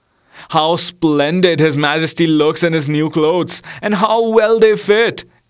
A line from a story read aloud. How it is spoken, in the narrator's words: Everyone cried out